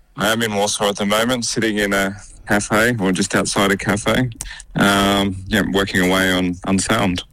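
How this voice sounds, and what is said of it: Australian accent. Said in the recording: “Aussie accent, of course”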